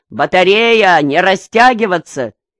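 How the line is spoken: Booming officer's shout. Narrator (Russian): Плотный подполковник зычно закричал

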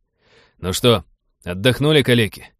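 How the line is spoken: Cheerful bark. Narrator (Russian): бодро рявкнул он

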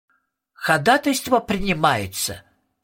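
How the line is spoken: Nasal courtroom drone, toad. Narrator (Russian): словно в суде прогнусавил жаб

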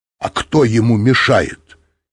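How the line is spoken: Angry. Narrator (Russian): сердито сказал Быков

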